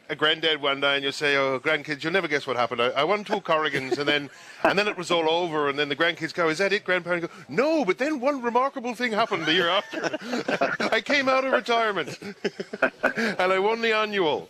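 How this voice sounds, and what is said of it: Deliberately bad put-on accent. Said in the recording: “That's a great story with a terrible accent”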